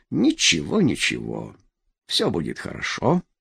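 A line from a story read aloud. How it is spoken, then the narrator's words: Soft. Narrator (Russian): мягко проговорил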